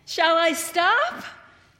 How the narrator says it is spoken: The boy shouted

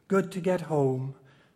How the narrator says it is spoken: said softly

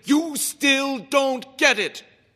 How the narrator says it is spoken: Chairman Liu bellowed

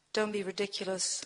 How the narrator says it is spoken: I mutter

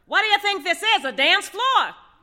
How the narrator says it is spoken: one taxi driver yells to another

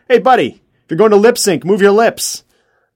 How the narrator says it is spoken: a man cupped his hand around the right side of his mouth and yelled

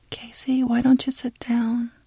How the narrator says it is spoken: Tina whispered

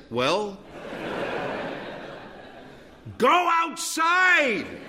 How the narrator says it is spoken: yell

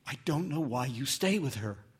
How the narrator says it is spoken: she whispered

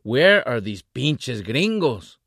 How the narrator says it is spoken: shouted

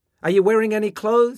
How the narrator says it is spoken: his mother shouted

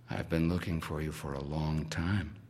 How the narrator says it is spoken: DJ says softly

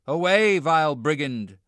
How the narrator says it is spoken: shouts the coachman

